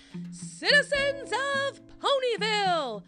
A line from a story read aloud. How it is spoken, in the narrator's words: booms Princess Luna